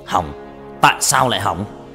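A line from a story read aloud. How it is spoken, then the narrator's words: Loud angry shout. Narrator (Vietnamese): quát lớn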